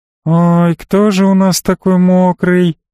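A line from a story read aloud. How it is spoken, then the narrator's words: Sing-song cooing lament. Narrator (Russian): нараспев запричитала Элли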